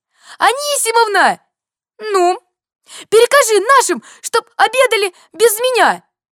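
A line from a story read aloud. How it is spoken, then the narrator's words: Shouting while running. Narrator (Russian): бежал и крикнул соседке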